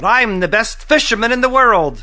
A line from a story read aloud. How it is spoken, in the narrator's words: Alashua yelled